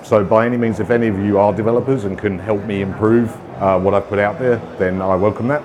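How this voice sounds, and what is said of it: British accent. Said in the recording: “originally from the UK, as you might tell from the accent”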